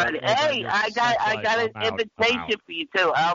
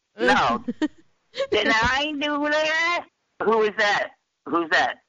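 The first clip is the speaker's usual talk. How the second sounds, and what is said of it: Impression of Steve Urkel. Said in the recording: “I'll do an impression. ... That's Urkel. ... Let's hear your Urkel again.”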